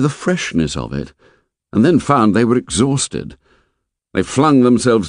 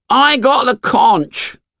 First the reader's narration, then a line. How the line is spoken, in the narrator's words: said Piggy indignantly